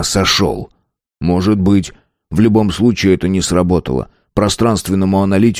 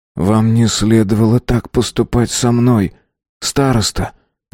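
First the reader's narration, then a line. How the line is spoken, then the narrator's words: Sad. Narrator (Russian): грустно сказал Рик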